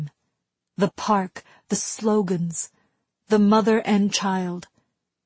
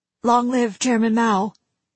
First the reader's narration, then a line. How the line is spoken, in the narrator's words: he said